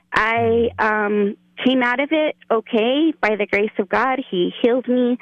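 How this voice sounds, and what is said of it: Shaky, emotional voice. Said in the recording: “my voice is getting shaky right now just talking about it”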